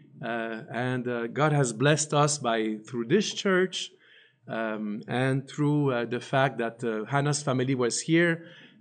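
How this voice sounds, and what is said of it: French-Canadian accent in English. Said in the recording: “I had a very bad English... I have a French accent to this day. But even in Polish, I speak with a French accent because I grew up in Montreal... French-Canadian”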